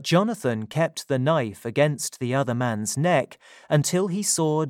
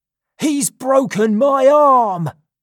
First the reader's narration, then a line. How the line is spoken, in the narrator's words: screamed the first man